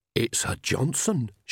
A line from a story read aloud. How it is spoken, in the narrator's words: she breathed